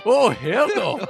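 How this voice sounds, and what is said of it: Mixed Scottish-Irish put-on accent. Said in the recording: “What accent was that? ... That was a cross between a Scot and an Irish.”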